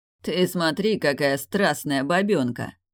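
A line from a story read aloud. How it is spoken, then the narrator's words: Pleased laughter. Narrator (Russian): Довольно расхохотался он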